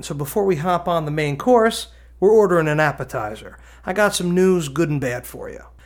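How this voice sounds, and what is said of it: New Jersey accent. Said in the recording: “my Danny DeVito kind of sounding accent ... I'm from New Jersey”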